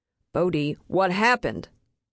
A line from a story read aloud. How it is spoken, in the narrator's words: Steve snaps